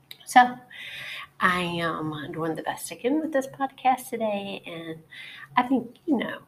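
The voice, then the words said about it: Slightly raspy voice. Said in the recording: “my uh, semi raspy voice... I've had it like this cold that is relentless and will just not go away”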